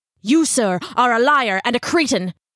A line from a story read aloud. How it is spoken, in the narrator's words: Ichabod snarled